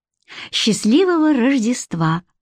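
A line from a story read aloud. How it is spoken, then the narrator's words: Cheerful, hiding feelings. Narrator (Russian): весело произношу, стараясь не выдать своих чувств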